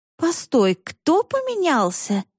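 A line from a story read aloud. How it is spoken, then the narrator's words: Genuinely surprised exclamation. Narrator (Russian): с неподдельным удивлением воскликнула Буль-Буль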